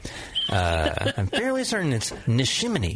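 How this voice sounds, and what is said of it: Imitates another person's voice. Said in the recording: “that was a perfect impression... You nailed it. I'm looking in a mirror, basically.”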